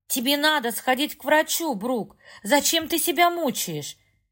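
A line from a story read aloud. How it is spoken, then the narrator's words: Distant shouting. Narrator (Russian): Мать кричала из кухни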